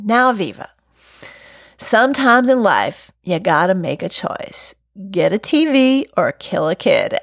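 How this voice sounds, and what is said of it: Heavy Southern accent. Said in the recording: “she had a heavy Southern accent.”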